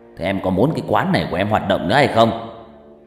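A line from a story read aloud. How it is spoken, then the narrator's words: Low threatening growl. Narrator (Vietnamese): tên thượng tá đã hạ gằn giọng dọa nạt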